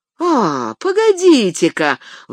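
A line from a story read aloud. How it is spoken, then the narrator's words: Exclaimed. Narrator (Russian): воскликнул Сэм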